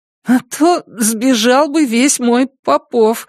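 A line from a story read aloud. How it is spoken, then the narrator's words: Said with a laugh. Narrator (Russian): сказал он и опять рассмеялся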